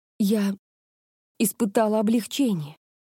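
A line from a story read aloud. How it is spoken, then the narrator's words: Trembling voice. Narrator (Russian): дрожащим голосом сказала Мика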